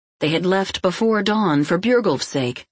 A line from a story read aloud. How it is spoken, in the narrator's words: said Nokva